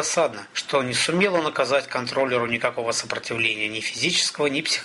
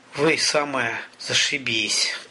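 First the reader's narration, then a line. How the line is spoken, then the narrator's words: Moaning. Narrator (Russian): простонал Олег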